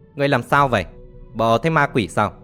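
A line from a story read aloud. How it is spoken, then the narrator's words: Glaring angry shout. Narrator (Vietnamese): Một gã râu xồm trừng mắt quát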